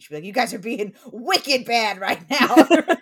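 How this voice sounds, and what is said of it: Put-on Boston accent. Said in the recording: “from Boston, and the only thing that she would do that was Boston-y ... it would come out in her speech”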